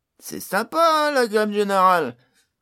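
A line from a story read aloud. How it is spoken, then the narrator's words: Said laughing. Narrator (French): dit Pod en riant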